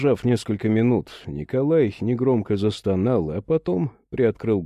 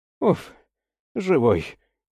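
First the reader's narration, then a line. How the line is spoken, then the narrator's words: Sigh. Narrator (Russian): вздохнул Иван Петрович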